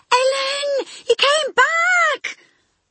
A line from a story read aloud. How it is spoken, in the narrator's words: he shrieked